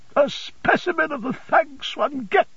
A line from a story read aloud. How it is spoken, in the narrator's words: cried Mrs